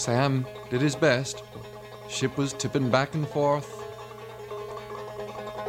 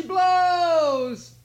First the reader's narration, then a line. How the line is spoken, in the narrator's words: cried